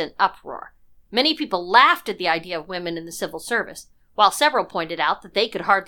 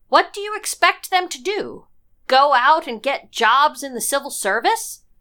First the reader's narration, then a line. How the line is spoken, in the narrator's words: called out